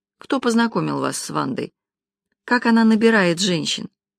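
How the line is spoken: Sighing. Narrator (Russian): Карина вздохнула

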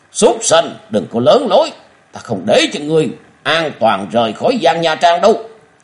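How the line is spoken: Furious loud shout. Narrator (Vietnamese): Giang Tiết Liêu không nén được sự giận dữ quát lớn

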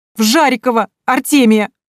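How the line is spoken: Sobbing. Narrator (Russian): всхлипнула Минадора

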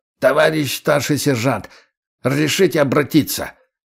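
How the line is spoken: Hoarse croaking voice. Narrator (Russian): Хриплый, каркающий голос

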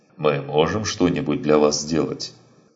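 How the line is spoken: Plain. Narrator (Russian): спросил второй мужчина

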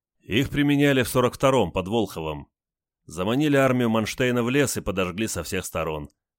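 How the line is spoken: Chuckling captain. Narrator (Russian): хохотнул капитан

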